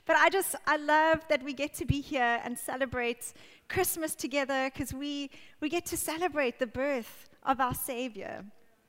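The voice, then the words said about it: Hoarse, scratchy strained voice. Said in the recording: “I think I nearly lost my voice. It's feeling quite scratchy after that.”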